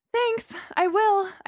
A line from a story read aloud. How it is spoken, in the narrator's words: I panted